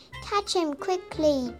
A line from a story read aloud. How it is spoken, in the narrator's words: said